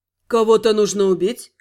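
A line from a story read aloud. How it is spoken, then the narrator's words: Calm clarifying question. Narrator (Russian): спокойно уточнил Фельгард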